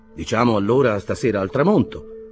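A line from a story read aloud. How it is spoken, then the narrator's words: Indifferent question. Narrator (Italian): domandò l'ufficiale con tono indifferente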